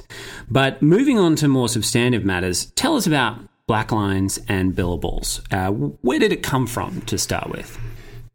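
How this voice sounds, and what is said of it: Australian accent. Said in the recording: “my dulcet tones as well, which, by the way, is not a Brooklyn accent ... I am, in fact, an Australian”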